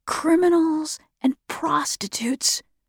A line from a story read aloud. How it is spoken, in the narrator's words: Andrews whispered